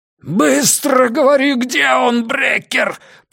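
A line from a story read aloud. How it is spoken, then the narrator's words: Roar in the face. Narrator (Russian): проревел Пекка ему в лицо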